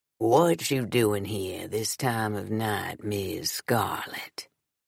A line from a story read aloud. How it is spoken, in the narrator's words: he asked, exaggerating his deep drawl